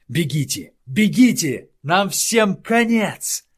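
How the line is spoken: Wailing scream. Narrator (Russian): вопил

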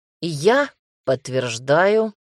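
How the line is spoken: Angry, through gritted teeth. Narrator (Russian): зло процедил другой вояка

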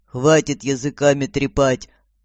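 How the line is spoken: Growled. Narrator (Russian): рыкнул господин Абрамс

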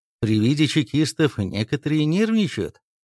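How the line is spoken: Calm statement. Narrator (Russian): спокойно констатировал Назаров

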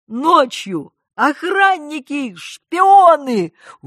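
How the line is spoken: Sudden outburst shout. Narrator (Russian): выкрикнула Надежда

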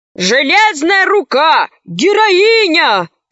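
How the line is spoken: Soldiers shouting. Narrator (Russian): кричали солдаты

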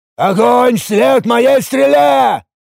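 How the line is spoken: Thunderous roar. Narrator (Russian): громоподобно взревел я

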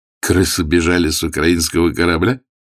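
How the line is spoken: Snide question. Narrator (Russian): ехидно спросил Егоров

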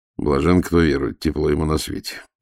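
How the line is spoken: Grumbling. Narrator (Russian): проворчал старший следователь

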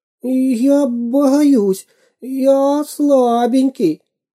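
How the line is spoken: Whimpering. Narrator (Russian): захныкал шпион

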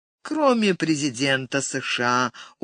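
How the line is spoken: Glum joke. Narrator (Russian): уныло пошутил он

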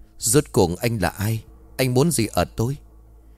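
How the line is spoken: Lowered voice, suppressed fear. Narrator (Vietnamese): Tên luyện ngài cứng họng, hắn đè nén sự sợ hãi, hạ giọng xuống rồi hỏi

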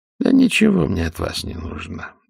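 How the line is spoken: Lazy reply. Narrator (Russian): так же лениво ответил Кирзнер

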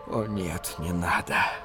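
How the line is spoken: Inward moan. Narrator (Russian): простонал про себя Шапира

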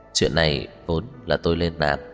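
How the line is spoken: Soft laugh. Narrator (Vietnamese): Cố Dư Sinh cười khẽ

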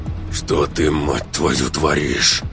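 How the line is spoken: Hoarse rasp. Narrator (Russian): прохрипел мужчина

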